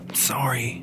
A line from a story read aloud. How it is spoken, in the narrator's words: Tony whispered